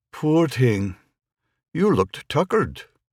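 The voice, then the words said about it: Irish accent. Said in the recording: “with a wonderfully safe Irish accent said”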